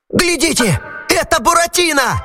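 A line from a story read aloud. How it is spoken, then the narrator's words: Shout. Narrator (Russian): закричал Арлекин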